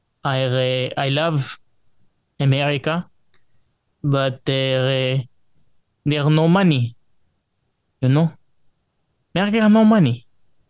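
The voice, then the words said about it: Put-on foreign accent. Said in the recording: “It is really accent.”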